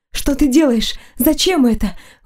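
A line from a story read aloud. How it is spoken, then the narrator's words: Breathless. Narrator (Russian): выдохнула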